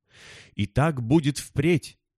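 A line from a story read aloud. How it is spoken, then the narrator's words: Exclaimed. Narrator (Russian): воскликнул прихлоп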